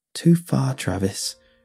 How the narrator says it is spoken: muttered

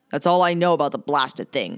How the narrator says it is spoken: the captain was growling

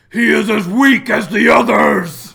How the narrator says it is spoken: Wimpoo yells

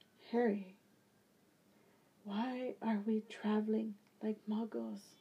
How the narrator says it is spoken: Draco whispered

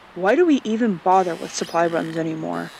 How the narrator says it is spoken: he asks

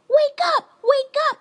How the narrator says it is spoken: they shouted

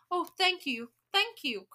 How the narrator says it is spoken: cried the old witches

